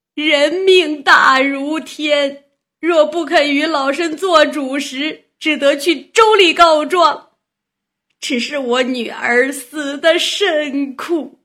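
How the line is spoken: Old woman, fake sobbing complaint. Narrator (Chinese): 阎婆在厅下叫屈叫苦，哽哽咽咽的假哭，告相公道

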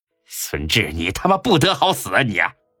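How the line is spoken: Angry roar. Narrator (Chinese): 他舅的怒吼声

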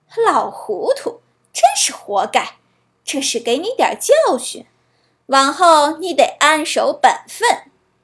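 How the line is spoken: Mocking. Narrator (Chinese): 人们都嘲笑他

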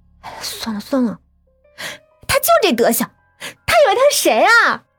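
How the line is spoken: Wry laugh. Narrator (Chinese): 我苦笑

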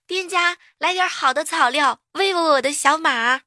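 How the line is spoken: Loud full-throated shout. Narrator (Chinese): 扯着嗓子喊句

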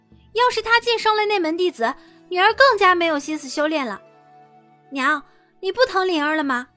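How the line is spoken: Calling out. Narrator (Chinese): 陆子霖叫了声

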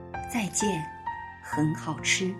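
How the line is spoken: Quiet. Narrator (Chinese): 他小声地说

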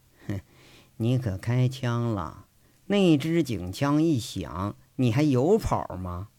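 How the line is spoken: Cold. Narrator (Chinese): 上官日成冷冷的说着

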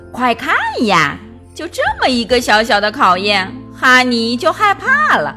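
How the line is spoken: Mocking girl. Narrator (Chinese): 一个女孩嘲笑道

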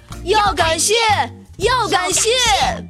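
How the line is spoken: Shrieking rats. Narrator (Chinese): 一群大老鼠的尖叫声

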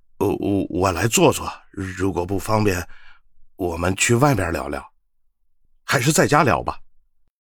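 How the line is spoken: Lowered voice. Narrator (Chinese): 胖男人……压低了声音

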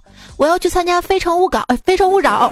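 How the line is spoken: Drunk man speaking loudly. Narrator (Chinese): 一个单身哥们儿喝高了，大声说

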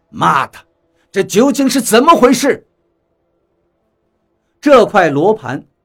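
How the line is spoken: Loud, anxious cursing. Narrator (Chinese): 他顿时着急了，大声骂道

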